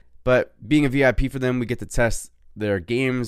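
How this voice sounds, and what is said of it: Usual voice. Nothing is said of it.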